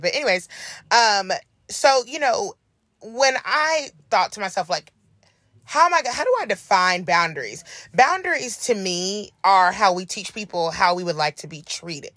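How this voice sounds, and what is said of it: Hoarse, froggy voice. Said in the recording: “my voice is feeling a little froggy. I'm still a little hoarse ... why am I so hoarse today?”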